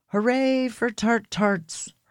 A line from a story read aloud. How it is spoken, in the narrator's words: her dad yelled